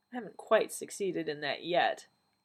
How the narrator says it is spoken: the doctor said dryly

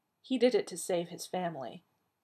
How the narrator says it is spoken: Taylor said gently

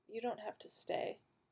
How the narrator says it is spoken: said quietly

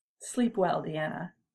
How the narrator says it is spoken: she said

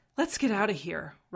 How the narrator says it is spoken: Rodney gasped

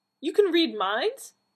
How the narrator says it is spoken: Donna exclaimed

